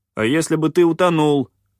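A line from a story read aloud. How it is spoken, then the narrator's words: Angry bark. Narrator (Russian): рявкнул попрыгун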